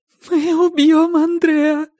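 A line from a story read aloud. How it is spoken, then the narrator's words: Whimpering. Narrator (Russian): хныкала Силья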